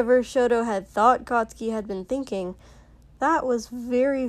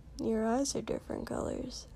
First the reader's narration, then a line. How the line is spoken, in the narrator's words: Katsuki said a little quietly